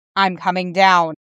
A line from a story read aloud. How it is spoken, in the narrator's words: he says